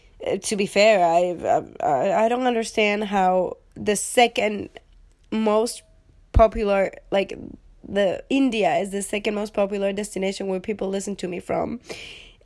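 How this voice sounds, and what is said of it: Non-native English accent. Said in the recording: “I'm sorry for the most of my listeners who come from the United States and my accent and the ways that I just kick the dictionary very violently”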